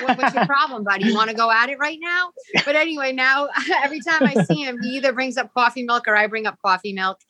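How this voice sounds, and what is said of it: Rhode Island accent. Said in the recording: “With that accent? I'm like, Yeah, this is a Rhode Island accent”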